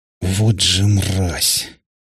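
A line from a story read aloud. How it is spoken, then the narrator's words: Hissed through teeth. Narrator (Russian): Процедил бледный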